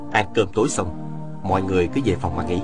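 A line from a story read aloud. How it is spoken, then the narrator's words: Soft. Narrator (Vietnamese): Viên Thừa Chí khẽ bảo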